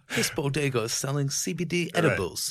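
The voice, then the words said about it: Poor Crocodile Hunter impression. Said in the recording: “like the crocodile hunter ... Terrible impression.”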